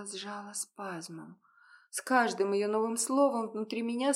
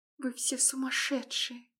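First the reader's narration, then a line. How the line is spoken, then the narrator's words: Quiet muttering. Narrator (Russian): пробормотала тихо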